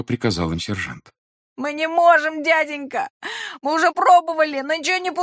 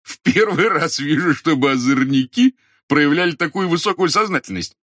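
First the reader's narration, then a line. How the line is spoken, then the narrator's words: Laughing. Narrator (Russian): рассмеялся дежурный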